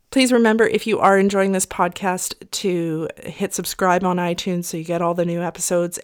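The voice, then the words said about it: Voice a bit off from illness. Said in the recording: “I also have that virus, and so my voice is a bit off”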